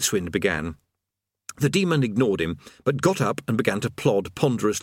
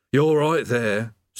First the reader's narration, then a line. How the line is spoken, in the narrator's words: said the demon mournfully